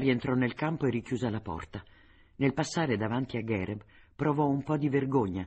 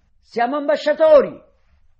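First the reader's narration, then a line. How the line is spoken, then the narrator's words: Shouted. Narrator (Italian): gridò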